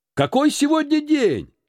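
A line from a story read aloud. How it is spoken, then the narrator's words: Shouting to a boy. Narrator (Russian): закричал Скрудж мальчику в праздничной одежде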